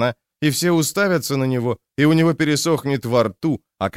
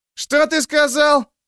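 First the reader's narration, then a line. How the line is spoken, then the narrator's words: Yell. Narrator (Russian): завопил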